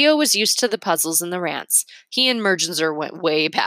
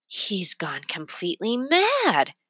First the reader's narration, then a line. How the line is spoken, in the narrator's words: Remy whispered